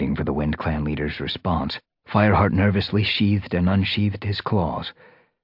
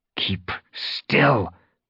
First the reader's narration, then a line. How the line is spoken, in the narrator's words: Fireheart hissed